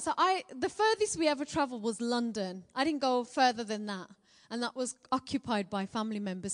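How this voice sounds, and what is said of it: Strong Birmingham accent. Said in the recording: “I'm a Brummie born and bred girl ... Have I got a strong Birmingham accent? Don't say yes”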